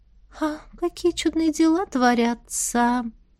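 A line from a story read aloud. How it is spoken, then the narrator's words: Thoughtful mutter. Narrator (Russian): задумчиво пробормотала Настя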